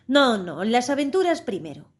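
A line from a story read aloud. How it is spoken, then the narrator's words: Griffin's impatient exclamation. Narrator (Spanish): exclamó el grifo con impaciencia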